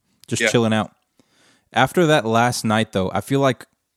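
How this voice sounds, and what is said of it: Usual voice. Nothing is said of it.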